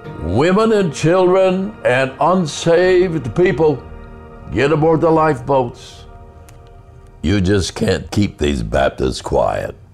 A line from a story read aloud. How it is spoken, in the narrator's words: that Baptist minister ran around the deck shouting